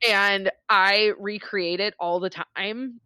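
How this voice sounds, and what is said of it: Usual voice. Nothing is said of it.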